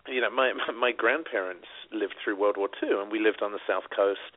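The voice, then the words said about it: British accent. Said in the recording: “when I was growing up in the UK, you may have noticed from the accent.”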